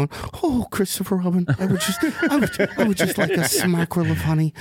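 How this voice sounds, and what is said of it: Imitates Winnie the Pooh's voice. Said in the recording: “Jane loves Winnie the Pooh, and I don't know how to do impressions”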